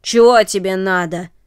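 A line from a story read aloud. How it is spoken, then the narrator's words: Rough-voiced question. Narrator (Russian): спросил он грубым голосом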